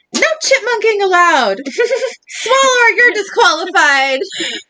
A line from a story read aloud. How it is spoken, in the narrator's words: the referee yells